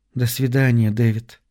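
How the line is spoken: Soft, gentle. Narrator (Russian): мягко произнесла Кейт

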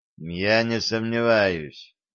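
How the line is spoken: Gloomy summing up. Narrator (Russian): мрачно резюмировал Аксалтаков

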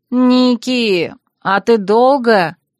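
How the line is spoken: Pleading drawl. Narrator (Russian): просительно протянула Сильвия

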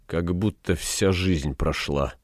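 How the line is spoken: Mumbled. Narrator (Russian): пробормотал Фагригет

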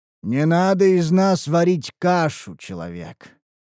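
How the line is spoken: Menacing remark. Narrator (Russian): грозно обронил Гробак

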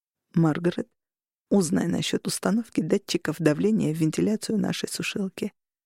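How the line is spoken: Quiet. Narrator (Russian): Роган тихо сказал

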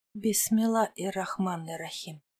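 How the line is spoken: Whispered. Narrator (Russian): шептали ее губы

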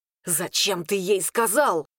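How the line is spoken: Quiet hiss. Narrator (Russian): прошипел тише

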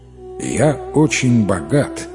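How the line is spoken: Plain. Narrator (Russian): сказал купец

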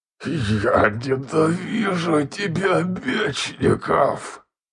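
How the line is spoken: Through gritted teeth. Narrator (Russian): Процедил сквозь зубы он

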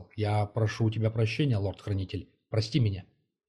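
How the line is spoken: Quiet after long pause. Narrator (Russian): довольно долго молчал, а потом тихо сказал

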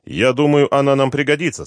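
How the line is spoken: Stern man. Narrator (Russian): строго сказал бельгиец

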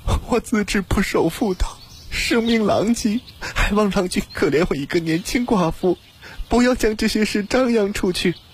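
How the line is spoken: Crying. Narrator (Chinese): 又听见蒋素素哭道

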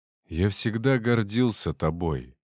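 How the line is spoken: Quiet. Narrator (Russian): произнес тихо

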